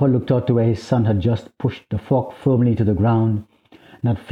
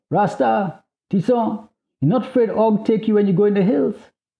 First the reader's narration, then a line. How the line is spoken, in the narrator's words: The child called out